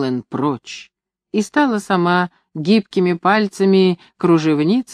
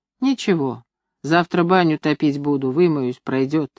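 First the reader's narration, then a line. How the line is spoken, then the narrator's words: Gentle pleading. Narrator (Russian): стала просить меня ласково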